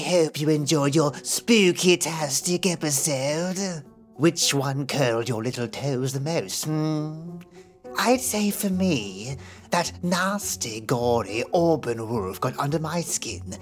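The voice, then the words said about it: Spooky Crypt Keeper character voice. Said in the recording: “I can relax my voice ... my impression today was terrible, I faked being the Crypt Keeper”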